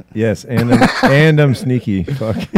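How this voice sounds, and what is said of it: Exaggerated put-on French accent. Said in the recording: “I'm French. ... Is that why you have that outrageous accent?”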